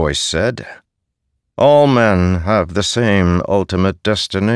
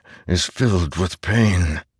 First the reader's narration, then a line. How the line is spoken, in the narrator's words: Dalinar whispered